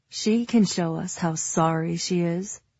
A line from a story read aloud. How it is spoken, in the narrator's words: Cardin drawls